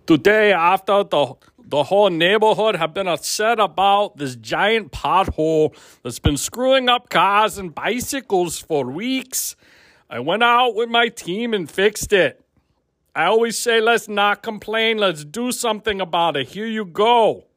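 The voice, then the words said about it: Poor Arnold Schwarzenegger impression. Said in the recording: “do you want to hear me do it in Arnold's voice? ... That was not a good Arnold impersonation.”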